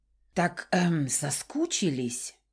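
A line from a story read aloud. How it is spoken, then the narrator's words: Uncertain. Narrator (Russian): Неуверенно ответил мой птенчик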